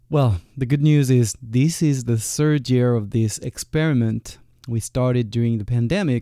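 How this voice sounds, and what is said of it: French-accented English. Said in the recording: “you're gonna have to keep up with that French accent”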